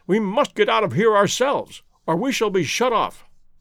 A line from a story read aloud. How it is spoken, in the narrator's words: he cried